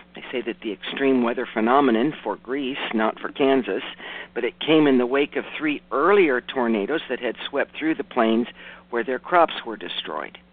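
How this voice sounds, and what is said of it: Raspy, rough voice. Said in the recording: “Excuse my raspy voice, everybody. I happen to have hay fever... I'm sounding more and more like, I don't know, Darth Vader or something... the later the day gets, the more rough I sound”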